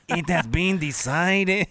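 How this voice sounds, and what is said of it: Robot voice with an accent. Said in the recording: “your robot dog has an accent”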